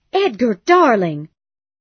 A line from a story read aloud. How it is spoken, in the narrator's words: cried